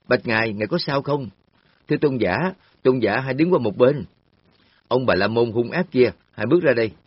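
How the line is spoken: Group shouting. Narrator (Vietnamese): Nhóm cận sự nam nữ la lên

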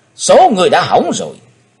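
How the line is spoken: Cold, deep shout. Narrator (Vietnamese): Chí Tôn trầm lạnh quát lớn

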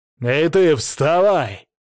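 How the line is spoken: Loud bark. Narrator (Russian): гаркнул я

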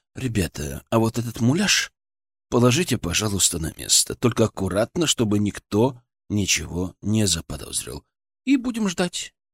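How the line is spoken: Said softly. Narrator (Russian): мягко сказал

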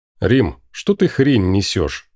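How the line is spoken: Quiet, hopeless. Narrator (Russian): Она как-то безнадежно отвела глаза в сторону и тихо пояснила

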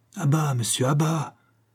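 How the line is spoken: Loud imperious exclamation. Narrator (French): s'écria une voix haute et impérieuse

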